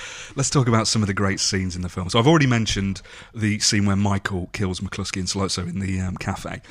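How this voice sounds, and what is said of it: Usual voice. Nothing is said of it.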